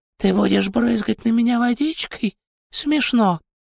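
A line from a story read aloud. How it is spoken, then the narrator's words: Purring vibration. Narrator (Russian): Существо снова издало свою мурлыкающую вибрацию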